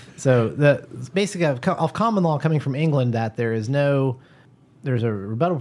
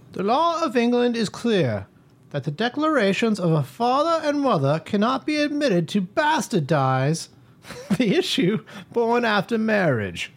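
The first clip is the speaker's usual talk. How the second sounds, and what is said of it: Weak put-on English accent. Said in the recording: “he probably said it with an English accent ... Well, that was better. You'll have to work on your English accent, yeah. Although it is better than your Australian accent. ... That was actually my Australian accent, too.”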